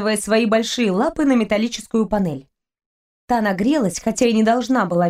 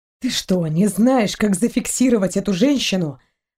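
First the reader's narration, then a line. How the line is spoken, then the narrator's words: Hissed. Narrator (Russian): прошипел Торн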